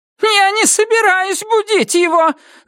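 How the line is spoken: Shouting. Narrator (Russian): закричала она

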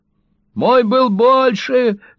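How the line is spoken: Yelling. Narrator (Russian): завопил он

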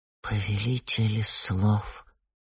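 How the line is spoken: Quiet. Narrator (Russian): тихо промолвил Фиен

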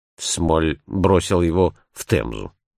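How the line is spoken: Plain. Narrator (Russian): ответил я

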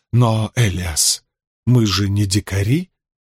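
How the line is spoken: Gentle teacher objecting. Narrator (Russian): мягко возразил учитель

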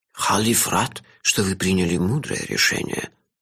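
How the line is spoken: Old man's whisper. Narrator (Russian): зашептал старик

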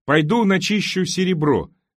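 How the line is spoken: Deliberately loud. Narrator (Russian): сказал он достаточно громко, чтобы Сюзанна его услышала

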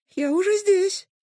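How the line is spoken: Muffled squeak from inside. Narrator (Russian): пропищал проводник из недр конуса

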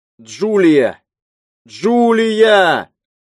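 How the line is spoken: Shouting. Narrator (Russian): Рики кричал

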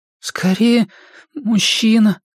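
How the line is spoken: Trembling tearful reply. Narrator (Russian): дрожащим голосом ответил Стэн, левой рукой вытирая с лица слезы

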